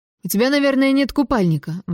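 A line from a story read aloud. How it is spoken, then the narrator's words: Exclaiming. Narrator (Russian): воскликнул Холл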